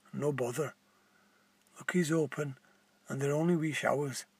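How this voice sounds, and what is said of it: Strange Scottish accent. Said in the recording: “in a strange Scottish accent”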